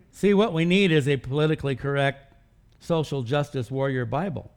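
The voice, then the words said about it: Sarcastic delivery. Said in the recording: “I'm being sarcastic,”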